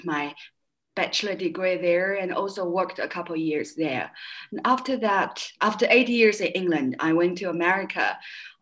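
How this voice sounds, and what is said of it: Slight British accent in English. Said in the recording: “I still hear a hint of your British accent when you speak English. It's nice.”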